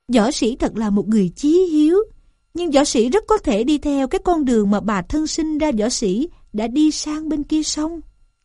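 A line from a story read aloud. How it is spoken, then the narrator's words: Smiling. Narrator (Vietnamese): Gián mỉm cười mà rằng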